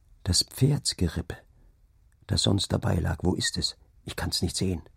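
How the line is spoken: Low murmur. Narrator (German): raunte er

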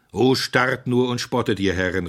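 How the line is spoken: Called out. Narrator (German): rief Simeon

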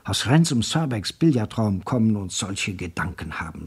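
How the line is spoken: Whispered. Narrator (German): flüsterte er

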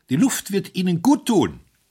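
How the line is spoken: Calling out. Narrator (German): rief er

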